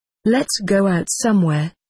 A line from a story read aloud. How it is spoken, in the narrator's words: laughing